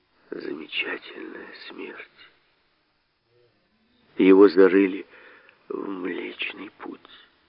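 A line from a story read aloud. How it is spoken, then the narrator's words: Comforting. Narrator (Russian): утешительно сказал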